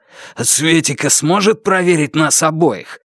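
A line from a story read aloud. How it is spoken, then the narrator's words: Wheezing with strain. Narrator (Russian): хрипя от натуги, он сказал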